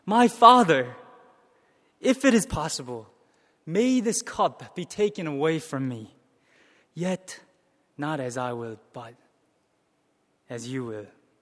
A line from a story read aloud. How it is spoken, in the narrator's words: he pleads